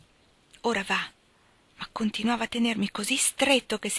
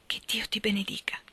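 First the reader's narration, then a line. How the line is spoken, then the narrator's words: Whisper. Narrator (Italian): Mi sussurrò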